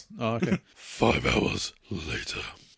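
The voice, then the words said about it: Deep, croaky put-on voice. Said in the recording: “in your deep, croaky, sexy, weird voice”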